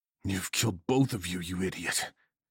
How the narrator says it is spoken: hissed through my brain

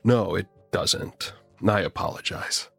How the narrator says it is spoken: I say through gritted teeth

